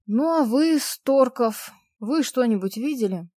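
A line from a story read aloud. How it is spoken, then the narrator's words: Tired question. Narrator (Russian): устало обратился полицейский к Максиму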